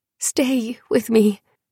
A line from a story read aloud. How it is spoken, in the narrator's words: Diel pleading